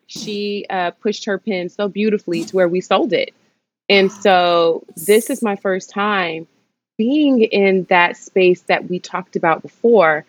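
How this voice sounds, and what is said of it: Noticeable accent. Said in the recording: “My accent sometimes gets in the way”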